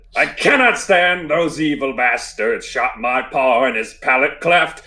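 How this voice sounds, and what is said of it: Sung in put-on pirate accent. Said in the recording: “I'm going to sing this one in a country accent ... I'll try with a pirate accent”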